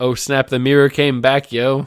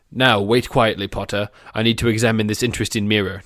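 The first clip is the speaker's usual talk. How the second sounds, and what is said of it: Put-on British accent. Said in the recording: “Did I drop out of British accent there?”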